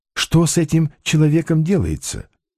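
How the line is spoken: Whisper. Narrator (Russian): шепнул Балаганову Остап

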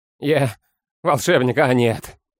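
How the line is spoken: Bitter laugh. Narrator (Russian): Серый горько рассмеялся

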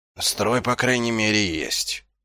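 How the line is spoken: Muttering. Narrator (Russian): пробормотал Ваймс

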